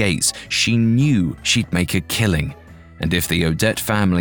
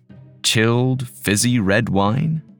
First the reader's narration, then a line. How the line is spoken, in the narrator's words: he said